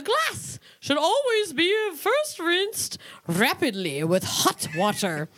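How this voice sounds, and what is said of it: Reading in a put-on accent. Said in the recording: “Do they really roll their R's? ... Are you trying to speak English? ... It's the wrong accent”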